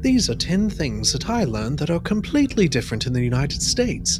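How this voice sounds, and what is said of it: Weak put-on British accent. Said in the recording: “That's not a very good British accent, but I tried my best.”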